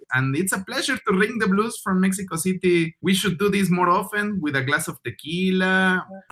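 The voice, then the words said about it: Mexican-accented English. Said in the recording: “my accent, like Mexican accent,”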